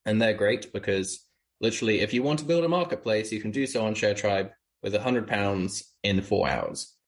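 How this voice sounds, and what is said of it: British accent. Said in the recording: “just listen to his accent. ... You're in the UK. ... you're actually from the UK. ... hence that explains your accent”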